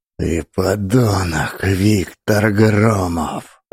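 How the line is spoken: Hissing. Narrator (Russian): Прошипела Лидия

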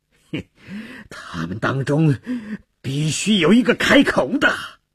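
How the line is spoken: Furious roar. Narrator (Chinese): 朗德里厄暴跳如雷地吼道

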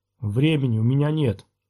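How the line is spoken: Gloomy. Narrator (Russian): мрачно отозвался Падаван

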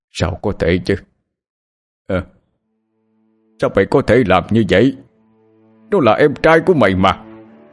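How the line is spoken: Anguished yelling. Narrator (Vietnamese): Ông Long đau lòng gào lên

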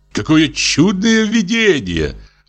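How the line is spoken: Nobleman's exclamation. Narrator (Russian): воскликнул граф

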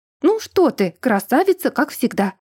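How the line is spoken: Overly cheerful, forced exclamation. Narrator (Russian): Слишком бодро воскликнула

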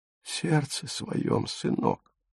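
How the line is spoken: Whisper. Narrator (Russian): прошептала она

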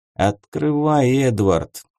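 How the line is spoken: Tired. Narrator (Russian): устало сказал Бенедикт

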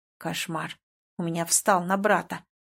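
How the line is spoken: Grumbling. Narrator (Russian): продолжал ворчать Тианон

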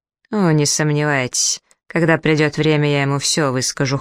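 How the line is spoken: Cold assurance. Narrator (Russian): холодно заверил моряк

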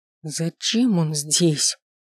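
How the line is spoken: Hissing. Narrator (Russian): продолжил шипеть я

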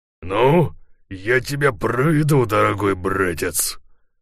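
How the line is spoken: Through gritted teeth. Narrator (Russian): проговорил Ларсон сквозь зубы

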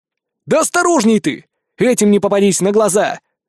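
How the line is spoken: Shout after someone. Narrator (Russian): крикнул я ему вдогонку

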